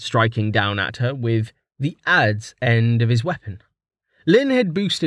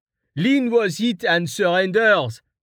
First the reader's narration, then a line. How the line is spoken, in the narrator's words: Val called out